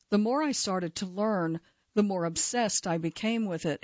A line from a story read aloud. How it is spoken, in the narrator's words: he says